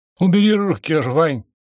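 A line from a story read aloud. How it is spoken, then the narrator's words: Strained, unnaturally high voice. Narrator (Russian): неестественно высоким голосом выдавил из себя он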